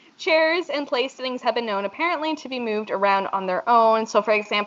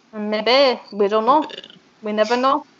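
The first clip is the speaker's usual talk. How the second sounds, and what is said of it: Bad put-on French accent. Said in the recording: “my really shitty attempt at a French accent ... that was really bad, too”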